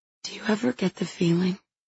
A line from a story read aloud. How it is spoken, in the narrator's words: She whispers, her hands suddenly trembling